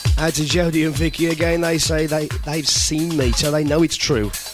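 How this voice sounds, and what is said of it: Hoarse, failing voice. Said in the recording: “Can you tell my voice is going?”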